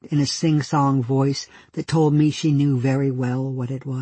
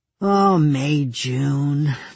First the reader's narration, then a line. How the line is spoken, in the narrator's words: the man said wearily